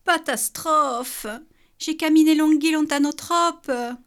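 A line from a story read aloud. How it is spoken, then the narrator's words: Exclaiming. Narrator (French): s'écria Bou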